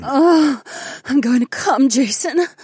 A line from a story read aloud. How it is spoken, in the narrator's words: the corporal whimpered